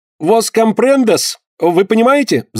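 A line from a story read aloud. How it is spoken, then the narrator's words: Extremely loud shout. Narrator (Russian): закричал Паганель так громко, что едва не порвал себе голосовые связки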